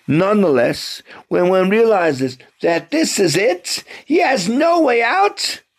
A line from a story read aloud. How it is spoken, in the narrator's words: he screams